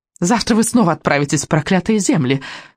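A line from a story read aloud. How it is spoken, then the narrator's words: Shrieking. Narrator (Russian): завизжала ведьма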